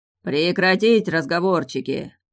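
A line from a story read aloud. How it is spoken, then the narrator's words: Booming thunderous voice. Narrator (Russian): раскатисто прогремел над нами голос Дрейка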